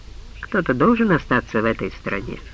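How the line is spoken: Calm reply. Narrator (Russian): спокойно ответил Крамер

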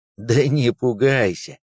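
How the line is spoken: Laughing. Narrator (Russian): рассмеялся дежурный

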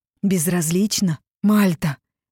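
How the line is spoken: Near growl. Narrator (Russian): почти прорычал он

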